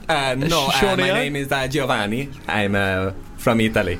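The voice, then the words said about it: Weird put-on Italian accent. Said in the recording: “This is a weird Italian accent.”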